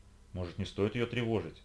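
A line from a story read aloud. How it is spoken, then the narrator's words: Timid question. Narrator (Russian): робко спросила Карина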